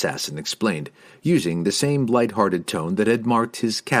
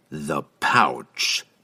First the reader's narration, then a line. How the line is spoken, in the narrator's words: Entreri reiterated, his tone now deadly serious